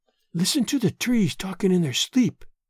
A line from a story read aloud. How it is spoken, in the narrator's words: she whispered